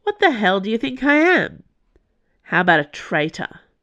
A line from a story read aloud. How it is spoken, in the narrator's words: Cho scoffed